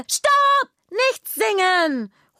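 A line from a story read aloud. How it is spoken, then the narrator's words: Interrupting call. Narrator (German): ruft Juna dazwischen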